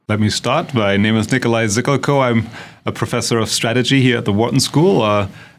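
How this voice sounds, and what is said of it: German accent. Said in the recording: “as you will probably tell from our accents, we are both originally from Germany”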